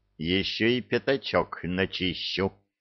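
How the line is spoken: Growling. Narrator (Russian): прорычал Кевин

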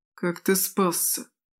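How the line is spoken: Trembling question. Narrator (Russian): дрогнувшим голосом спросил Гер

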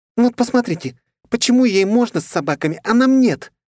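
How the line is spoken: Hysterical exclamation. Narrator (Russian): истерично воскликнула дама из столицы

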